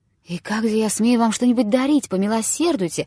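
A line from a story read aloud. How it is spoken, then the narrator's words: Exclamation. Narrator (Russian): воскликнул жид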